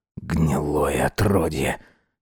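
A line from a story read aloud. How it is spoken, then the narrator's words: Quiet curse. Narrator (Russian): тихо выругался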